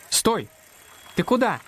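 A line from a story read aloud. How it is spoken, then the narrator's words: Shout. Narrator (Russian): крикнул Макс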